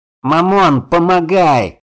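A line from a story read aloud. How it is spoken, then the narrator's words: Shouted. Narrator (Russian): прокричал он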